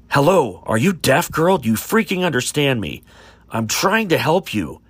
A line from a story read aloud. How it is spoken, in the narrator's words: Eric shouted